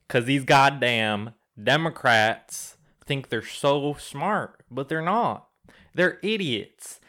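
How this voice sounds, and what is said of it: Put-on Southern American accent. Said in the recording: “you've got a little accent going on ... I've been talking in a southern accent for the past hour”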